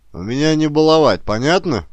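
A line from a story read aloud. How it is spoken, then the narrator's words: Growling. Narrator (Russian): прорычал он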